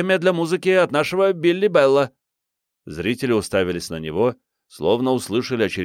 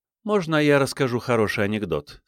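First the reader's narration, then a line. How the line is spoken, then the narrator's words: Plain. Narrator (Russian): спросила она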